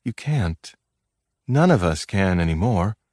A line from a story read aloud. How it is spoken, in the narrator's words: Her voice was still soft when she said